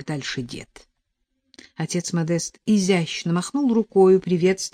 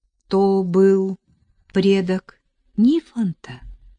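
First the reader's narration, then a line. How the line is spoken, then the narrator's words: Plain question. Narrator (Russian): спросила Нелли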